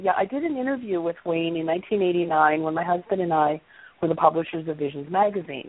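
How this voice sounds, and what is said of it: Scratchy, slightly hoarse voice. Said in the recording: “My voice is a little scratchy today.”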